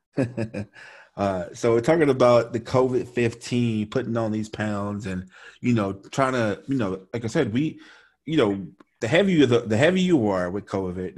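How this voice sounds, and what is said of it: Thick Louisiana accent. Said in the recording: “I think my Louisiana accent is pretty thick”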